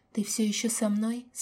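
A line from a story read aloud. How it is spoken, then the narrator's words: Quiet question. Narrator (Russian): спросили тихо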